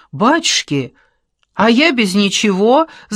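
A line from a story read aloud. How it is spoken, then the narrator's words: Shout. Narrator (Russian): закричала Томка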